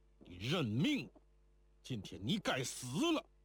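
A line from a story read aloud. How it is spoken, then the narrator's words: Harsh shout through clenched teeth. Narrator (Chinese): 咬牙厉声喝道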